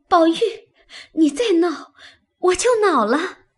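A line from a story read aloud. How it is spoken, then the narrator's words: Breathless laughter. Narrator (Chinese): 黛玉便笑得喘不过气来，口里说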